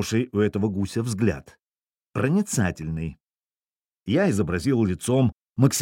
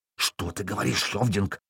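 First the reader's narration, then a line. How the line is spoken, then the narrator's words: Hiss. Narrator (Russian): прошипел Гримар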